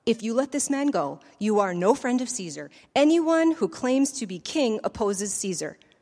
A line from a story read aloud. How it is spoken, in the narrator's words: the Jews kept shouting